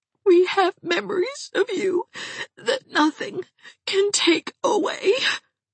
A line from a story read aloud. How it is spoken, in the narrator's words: sobbed Aunt Shatty